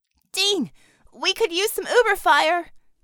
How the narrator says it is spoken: Bella shouted into her comm

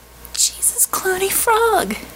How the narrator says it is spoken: sputtered

